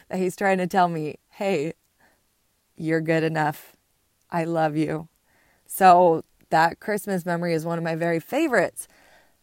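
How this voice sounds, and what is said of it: Choked-up, emotional voice. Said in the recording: “I'm getting choked up about this”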